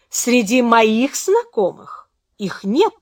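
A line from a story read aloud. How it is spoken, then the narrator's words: Meaningful tone. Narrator (Russian): сказала она значительным тоном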